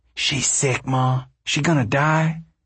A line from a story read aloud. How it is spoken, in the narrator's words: She whispered harshly